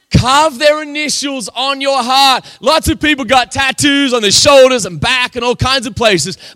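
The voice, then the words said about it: Speaks with a noticeable accent. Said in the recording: “Don't make fun of my accent.”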